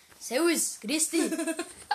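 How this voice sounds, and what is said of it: Put-on Bavarian accent. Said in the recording (German): “das sind immer die Wörter, die ich auf Bayerisch so auf bayerischer Akzent habe”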